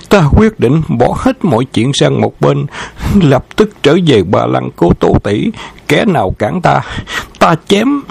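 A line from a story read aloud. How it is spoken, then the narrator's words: Panting. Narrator (Vietnamese): Khâu Trọng thở hổn hển nói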